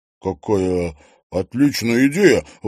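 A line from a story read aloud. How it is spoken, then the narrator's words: Delighted breathless exhale. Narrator (Russian): восторженно выдохнул Трофимов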